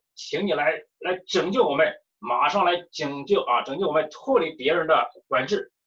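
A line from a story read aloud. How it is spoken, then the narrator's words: Crowd crying out loudly. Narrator (Chinese): 庞大一群人一边在高声的颂赞耶稣，一边在那大声的呼叫，说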